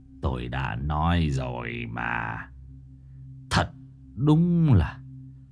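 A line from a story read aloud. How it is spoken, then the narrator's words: Old man sighing. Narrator (Vietnamese): Ông cụ Mạnh thở dài nói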